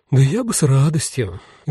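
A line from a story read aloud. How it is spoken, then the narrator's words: Sigh. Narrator (Russian): вздохнула та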